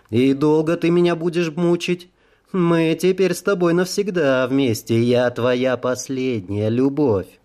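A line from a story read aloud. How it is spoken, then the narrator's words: Nasty giggle. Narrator (Russian): мерзко хихикнула боль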